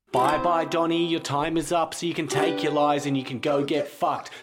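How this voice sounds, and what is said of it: Australian accent, fast singing. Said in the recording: “It goes fast. The guy has an accent. They're from Australia.”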